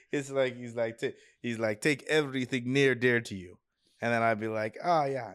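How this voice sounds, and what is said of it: Slightly Russian accent. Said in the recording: “I'm giving him like a slightly Russian accent”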